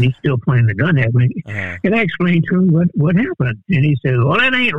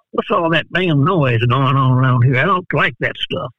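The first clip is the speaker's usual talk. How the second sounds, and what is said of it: Put-on Texas accent. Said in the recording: “my best impression of a Texas accent”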